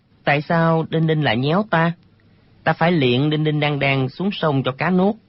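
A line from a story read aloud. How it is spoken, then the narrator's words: Playful, smiling. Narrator (Vietnamese): Thạch Phá Thiên lại nổi lòng trẻ con, mỉm cười nói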